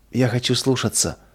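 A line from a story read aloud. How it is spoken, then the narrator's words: Tearful whisper. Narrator (Russian): прошептала сквозь слезы Нина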